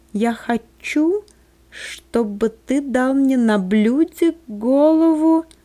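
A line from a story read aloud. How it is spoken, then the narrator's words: Slight childlike lisp. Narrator (Russian): слегка шепелявя, как ребенок, произнесла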